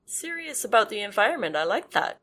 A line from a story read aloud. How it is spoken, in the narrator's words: Brian said